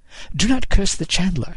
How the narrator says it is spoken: he said, entirely too brightly

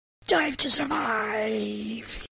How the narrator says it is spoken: He screamed as he hurtled at breakneck speed

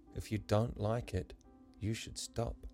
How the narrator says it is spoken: the boy gently tested the air

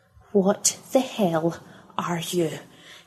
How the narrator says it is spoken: hissed Pippa

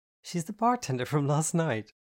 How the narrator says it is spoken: I chuckled nervously

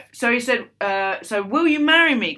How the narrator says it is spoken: Carl stammered

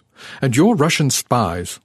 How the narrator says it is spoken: Arnaud snapped, as if a blunt accusation could justify our intrusion

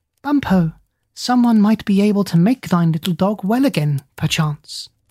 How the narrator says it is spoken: the parrot, talking in a small, high voice like a little girl, said aloud

